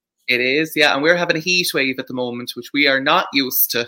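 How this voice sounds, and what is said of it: Irish accent. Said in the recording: “your accent ... you're in Ireland, aren't you?”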